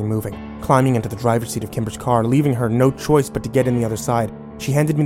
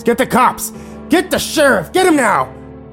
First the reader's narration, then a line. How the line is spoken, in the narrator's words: He began screaming at the top of his lungs